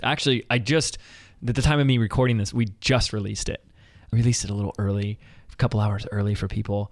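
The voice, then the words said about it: Whispering. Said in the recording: “I don't know why I'm whispering,”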